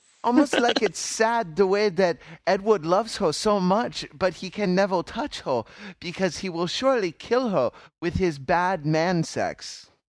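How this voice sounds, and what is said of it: Put-on cutesy baby-talk voice. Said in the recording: “What voice are you doing right now? ... Is that a vampire accent there? ... That was vampirish right there. ... It was sounding very Asian ... I was trying to be like baby talk. I was trying to be like cutesy talk.”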